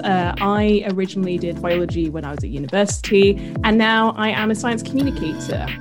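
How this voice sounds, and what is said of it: British accent. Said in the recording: “I live in the UK, as you can tell by my accent.”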